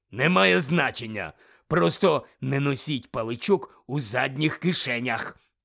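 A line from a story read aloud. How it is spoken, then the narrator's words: Growled. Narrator (Ukrainian): прогарчав дикозор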